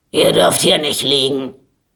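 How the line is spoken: Guard shouting. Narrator (German): schrie sie der Wächter an

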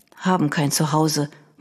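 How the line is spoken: Boy murmuring. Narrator (German): murmelte der Junge

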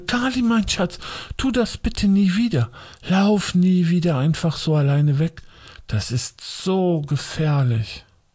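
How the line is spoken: Agitated voice. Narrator (German): sagte mit aufgeregter Stimme

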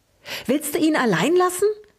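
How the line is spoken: Excited squeak. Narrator (German): fiebte aufgeregt, der als erster seine Sprache wiedergefunden hatte

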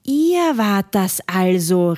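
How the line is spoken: Called out. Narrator (German): rief Robert

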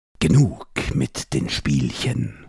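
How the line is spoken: Hissing. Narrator (German): zischte der Ase

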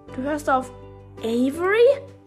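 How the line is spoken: Horrified exclamation. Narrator (German): rief Leni entsetzt aus

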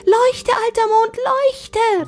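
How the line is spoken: Calling out. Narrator (German): rief er

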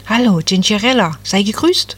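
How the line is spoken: Cheerful little tree. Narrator (German): sagte das Nadelbäumchen fröhlich

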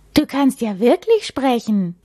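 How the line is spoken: Astonished exclamation. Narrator (German): ruft Henry verblüfft

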